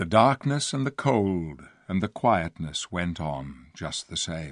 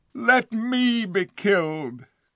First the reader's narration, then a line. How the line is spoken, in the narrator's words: cried the king